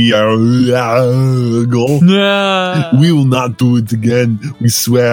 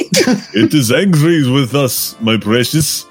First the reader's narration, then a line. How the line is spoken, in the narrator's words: Smeagol whimpered